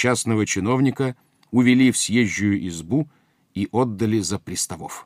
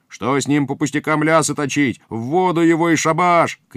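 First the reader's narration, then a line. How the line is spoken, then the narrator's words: Several people shouting. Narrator (Russian): кричали другие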